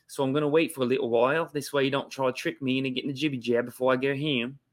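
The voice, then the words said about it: Put-on Australian accent. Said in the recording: “That's a pretty good uh, Australian accent”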